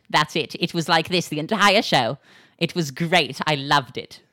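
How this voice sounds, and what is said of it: Put-on British accent. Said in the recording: “A sample of my accent ... whenever I talk like that, it makes me feel like I am a mean, fat British lady.”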